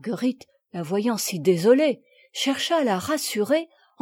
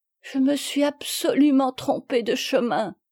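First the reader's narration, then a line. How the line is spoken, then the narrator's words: Sobbing cry. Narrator (French): s'écria Sophie en sanglotant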